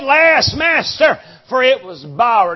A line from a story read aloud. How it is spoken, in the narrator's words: He cried and said